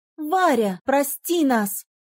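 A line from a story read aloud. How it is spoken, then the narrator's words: Mother shouting over noise. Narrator (Russian): Сквозь шум прокричала мама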